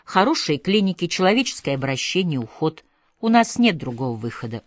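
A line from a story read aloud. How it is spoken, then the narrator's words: Very calm. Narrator (Russian): очень спокойно говорила Люда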